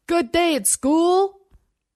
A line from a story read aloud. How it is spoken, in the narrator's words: Over the rising whine of the engine and the vip, vip, vip of chopped air, he shouted